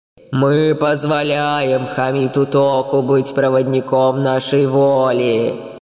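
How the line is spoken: Strangely alien voice. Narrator (Russian): сказал он странно чужим голосом

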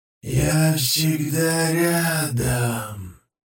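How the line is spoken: Hoarse croak. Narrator (Russian): Прохрипел

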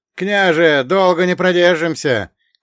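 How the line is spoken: Shouting soldier. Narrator (Russian): крикнул десятник Ивашка, один из людей Поздеева

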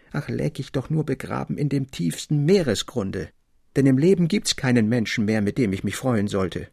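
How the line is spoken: Gloomy call over noise. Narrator (German): Elis Fröbom in seine düstere Träumerei und rief endlich, als der Jubel in der Schenke recht laut und toll wurde

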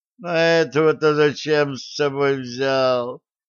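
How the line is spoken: Groaned. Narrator (Russian): простонал Шарль

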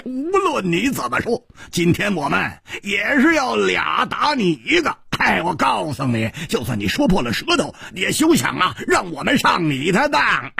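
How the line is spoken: Laughing heartily. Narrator (Chinese): 蝴蝶花大笑着说

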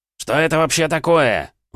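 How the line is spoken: Exclamation. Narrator (Russian): воскликнул представительный мужчина

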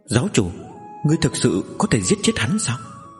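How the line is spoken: Soft. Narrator (Vietnamese): Giang Mễ khẽ nói

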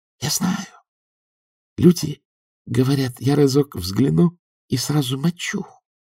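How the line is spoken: Whisper. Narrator (Russian): прошептал по Элденик

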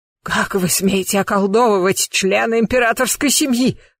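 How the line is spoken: Hoarse rasp. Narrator (Russian): прохрипела она

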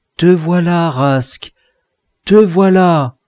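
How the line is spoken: Exclamation. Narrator (French): Enfin il s'écria

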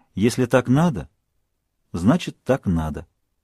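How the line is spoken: Calm. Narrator (Russian): Сара спокойно сказала

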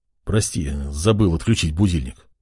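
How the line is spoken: Muttered apology. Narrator (Russian): пробормотал он

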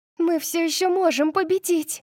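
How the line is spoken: Shout. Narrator (Russian): закричала София

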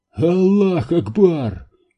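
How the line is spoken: Exclamation. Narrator (Russian): воскликнул Самир

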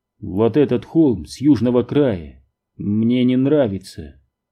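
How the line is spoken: Plain. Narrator (Russian): ответил Милс

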